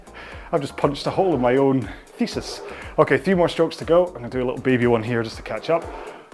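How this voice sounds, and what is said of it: Out of breath while exercising. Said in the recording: “if I was fit, I shouldn't be out of breath, should I?”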